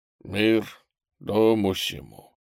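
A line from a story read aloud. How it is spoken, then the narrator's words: Quiet, clear old man. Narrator (Russian): старик тихо, но внятно сказал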